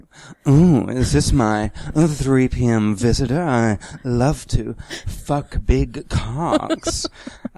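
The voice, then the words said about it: Impression of Samantha, Kim Cattrall. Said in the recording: “That impression of you doing Samantha.”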